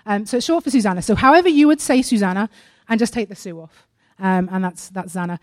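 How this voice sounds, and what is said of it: British accent. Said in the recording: “We don't have microphones in the UK ... I know my accent can be confusing”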